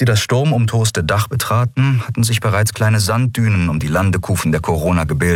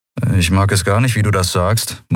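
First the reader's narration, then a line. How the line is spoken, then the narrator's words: Murmur. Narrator (German): murmelte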